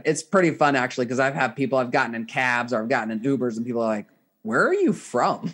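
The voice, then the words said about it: Slight southern American accent. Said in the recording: “I was picking up a bit of a, almost a southern accent ... now I have this mishmash”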